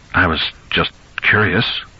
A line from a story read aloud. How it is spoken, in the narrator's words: Lewis said uneasily